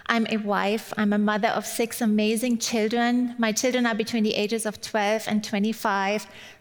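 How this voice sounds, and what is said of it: German accent. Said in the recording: “you've probably picked up from my accent already. I'm originally from Germany ... it might take you that long to kind of tune into my accent”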